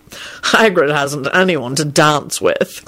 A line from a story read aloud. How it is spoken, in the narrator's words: Kingsley chuckled